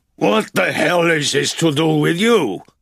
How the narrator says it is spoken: the bartender shouted

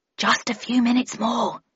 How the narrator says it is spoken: replied Raffles quietly

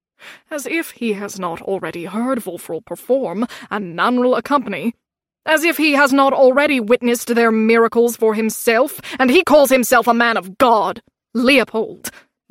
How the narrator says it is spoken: Mama said sharply

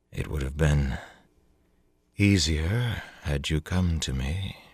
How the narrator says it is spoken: she murmured, seeming not to care whether Briss heard

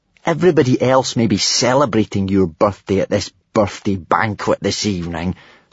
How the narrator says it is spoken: Snotlout had snarled

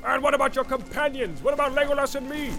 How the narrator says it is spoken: cried Gimli, unable to contain himself longer

